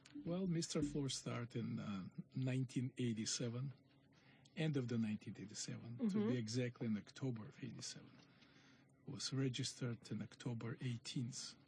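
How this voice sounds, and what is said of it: Russian accent. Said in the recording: “Is that an Irish accent? ... Everybody was saying, like, are you Greek? ... Mediterranean? ... I'm going to go Russian. ... You'd be right.”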